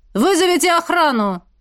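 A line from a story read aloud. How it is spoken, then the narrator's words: Shouted. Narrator (Russian): крикнул я в толпу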